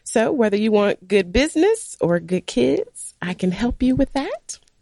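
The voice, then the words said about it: Sick-sounding voice. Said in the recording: “I don't have my beautiful radio voice on today. I am sick”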